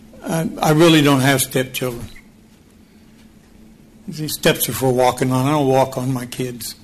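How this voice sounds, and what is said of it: Choked-up, emotional voice. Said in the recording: “I'm a little choked ... I'm a little emotional.”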